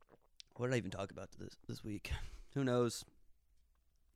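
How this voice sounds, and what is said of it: Usual voice. Nothing is said of it.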